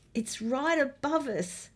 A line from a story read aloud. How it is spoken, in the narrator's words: gasped